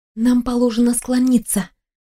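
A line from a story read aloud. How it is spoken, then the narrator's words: Whispering. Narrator (Russian): шепнула я сестре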